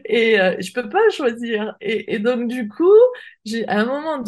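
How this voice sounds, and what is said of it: Usual voice. Nothing is said of it.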